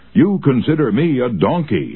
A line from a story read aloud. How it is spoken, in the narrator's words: he shouted